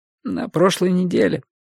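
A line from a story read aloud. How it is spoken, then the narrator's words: Hoarse, tearful question. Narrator (Russian): хрипло переспросила она, вытирая глаза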